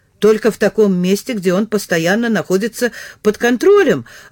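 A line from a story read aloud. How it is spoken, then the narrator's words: Joyful exclamation. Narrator (Russian): воскликнул он от радости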